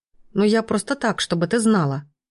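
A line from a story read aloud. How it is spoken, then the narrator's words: Grumbled. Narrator (Russian): буркнула Тома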